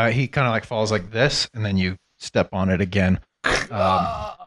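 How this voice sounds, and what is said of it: Usual voice. Nothing is said of it.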